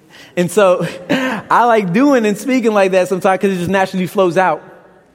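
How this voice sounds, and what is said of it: Brooklyn accent. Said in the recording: “you have an accent... I like being from Brooklyn. I like my accent.”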